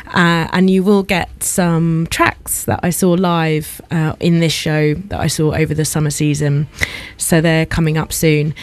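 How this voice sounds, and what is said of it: Lower, huskier, tired voice. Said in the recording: “my voice is a little lower and huskier than usual as well ... I am tired”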